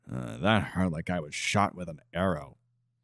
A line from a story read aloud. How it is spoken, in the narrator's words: He sighed before pointing out